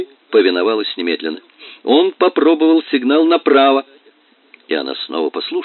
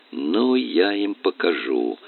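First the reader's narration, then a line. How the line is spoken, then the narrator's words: Muttered. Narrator (Russian): Джонни пробормотал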